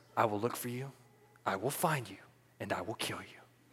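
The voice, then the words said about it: Calm Liam Neeson impression. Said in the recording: “He says it so calmly into the phone ... Terrible impersonation.”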